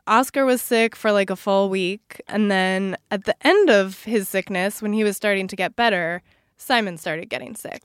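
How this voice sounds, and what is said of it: Sick-sounding voice. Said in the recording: “I don't know if you guys can tell by my voice, but I'm sick.”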